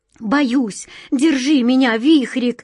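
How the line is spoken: Frightened babbling. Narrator (Russian): лепетала она

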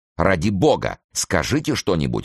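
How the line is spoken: Agitated exclamation. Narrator (Russian): воскликнула она в волнении

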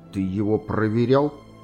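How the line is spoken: Question through gritted teeth. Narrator (Russian): сквозь зубы спросил

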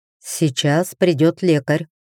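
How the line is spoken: Plain. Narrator (Russian): ответил Зардан

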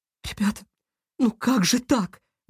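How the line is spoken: Distressed exclamation. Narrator (Russian): воскликнула, заламывая руки

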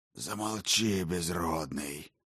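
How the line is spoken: Hoarse, sharp interruption. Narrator (Russian): сипло осек врача Тиберий

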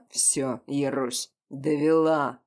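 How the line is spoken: Growl. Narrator (Russian): прорычал Ян

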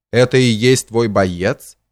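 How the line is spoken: Mocking question. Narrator (Russian): спросил насмешливо

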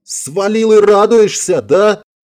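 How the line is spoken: Indignant yelling. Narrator (Russian): возмущенно заорала Элен

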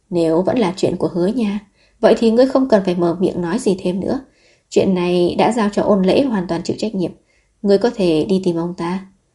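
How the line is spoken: Sighing. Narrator (Vietnamese): Thần chiếu thở dài nói

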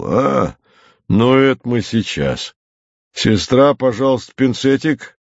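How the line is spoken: Calm bass voice. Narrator (Russian): Пан доктор спокойно пробасил

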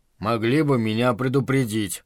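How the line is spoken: Grumble, fat man. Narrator (Russian): проворчал толстый Чарли

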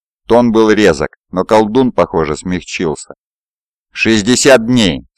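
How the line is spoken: Plain. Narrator (Russian): сказал Уолли

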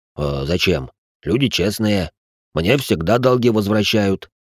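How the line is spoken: Offended deep bass. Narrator (Russian): пробасил инвалид, на что-то обидевшись

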